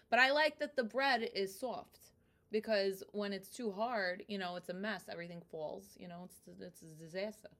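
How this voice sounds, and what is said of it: Brooklyn accent. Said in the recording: “I heard the Brooklyn in that. Mm-hmm. I hear the Brooklyn a lot.”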